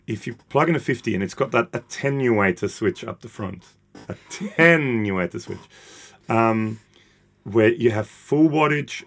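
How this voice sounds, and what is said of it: Non-native English accent. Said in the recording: “I'm not a native English speaker. I said attenuator a lot, but it's my accent.”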